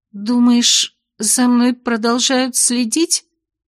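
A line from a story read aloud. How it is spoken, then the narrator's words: Trembling voice question. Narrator (Russian): Дрогнувшим голосом поинтересовалась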